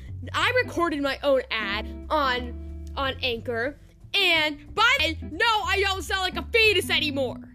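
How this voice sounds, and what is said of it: Yelling, loud strained voice. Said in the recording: “my throat hurts really badly, so I'm gonna stop yelling.”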